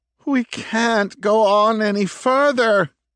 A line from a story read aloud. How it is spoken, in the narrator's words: one of them moaned in a voice far too loud for her liking